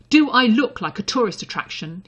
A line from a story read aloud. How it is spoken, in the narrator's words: he said savagely